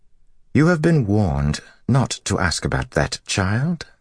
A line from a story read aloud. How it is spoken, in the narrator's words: Lelaine said in her soft, melodious voice